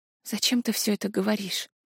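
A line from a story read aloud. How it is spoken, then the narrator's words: Strangled whisper. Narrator (Russian): Сдавленно прошептала я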